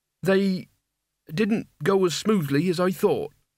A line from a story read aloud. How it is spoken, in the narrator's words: said Mort, standing nervously